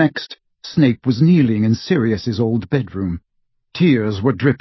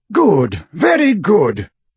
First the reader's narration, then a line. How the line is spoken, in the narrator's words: cried the portrait of Dumbledore